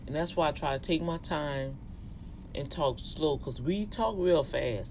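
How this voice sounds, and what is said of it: Louisiana Cajun Southern accent. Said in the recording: “my accent gonna sound like that because I'm from Louisiana and I do have an accent... we have that Plaza Blanc Cajun dialect”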